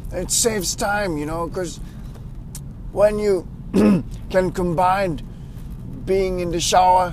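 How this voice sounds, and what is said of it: Speaks with a sore throat. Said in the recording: “I've got a bit of a sore throat.”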